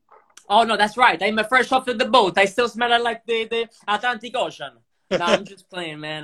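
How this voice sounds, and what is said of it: Heavy Italian accent. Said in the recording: “why he has a heavy accent ... He just arrived from Italy yesterday.”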